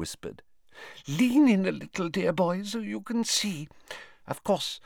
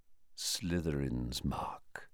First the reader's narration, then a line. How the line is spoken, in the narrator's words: he said quietly